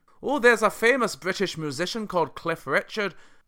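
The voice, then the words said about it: Put-on Scottish accent. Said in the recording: “that was a Scottish accent”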